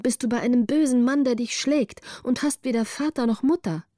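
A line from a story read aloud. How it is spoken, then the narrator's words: Called out. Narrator (German): rief Greta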